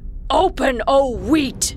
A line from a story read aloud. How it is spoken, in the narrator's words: Irritated, Kasim yelled